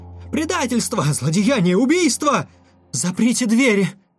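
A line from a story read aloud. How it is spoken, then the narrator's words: Shouting in alarm. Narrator (Russian): закричала, вскакивая, доктор Феррара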